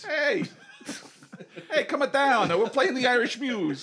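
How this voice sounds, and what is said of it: Poor put-on Irish accent. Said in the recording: “it's a terrible Irish accent.”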